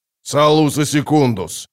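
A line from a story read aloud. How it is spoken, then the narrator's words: Barked. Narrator (Russian): рявкнул барон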